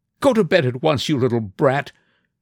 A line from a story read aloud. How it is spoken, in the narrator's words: cried angrily